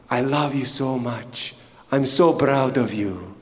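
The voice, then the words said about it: Put-on Egyptian accent. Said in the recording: “he had an Egyptian accent ... This is my accent. Don't make fun of it, okay? It's just, I'm trying. If you're Egyptian, I'm sorry. But I'm trying”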